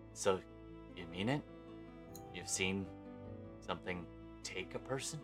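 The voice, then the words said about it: Lowered, quieter voice. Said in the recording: “I lower my voice”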